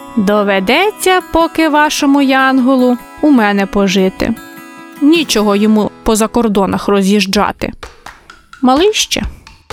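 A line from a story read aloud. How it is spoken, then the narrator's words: Laughing. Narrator (Ukrainian): Дідусь Яків розсміявся і сказав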